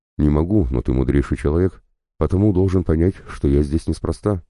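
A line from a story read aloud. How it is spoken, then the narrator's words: Plain. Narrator (Russian): сказал Себастьяни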